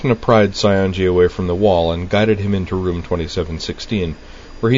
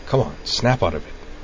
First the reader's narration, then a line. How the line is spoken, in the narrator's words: Utina muttered out of the side of her mouth